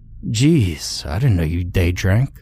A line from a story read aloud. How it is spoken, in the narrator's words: Frank said, chuckling to himself